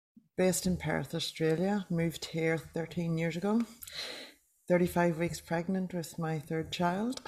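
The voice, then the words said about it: Irish accent. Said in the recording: “people will probably hear your accent and think, oh, she's from Ireland”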